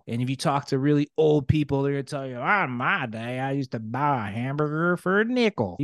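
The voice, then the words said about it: Put-on old-person Southern accent. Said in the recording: “you got to work on your country accent ... That was my old person accent ... That was my Southern accent.”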